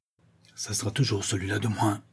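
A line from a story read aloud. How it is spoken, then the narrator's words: Muffled low voice. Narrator (French): dit le brigand d'une voix sourde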